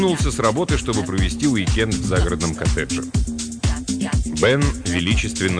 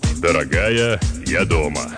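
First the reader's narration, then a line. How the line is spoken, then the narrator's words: Deep bass announcement. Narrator (Russian): возвестил он глубоким басом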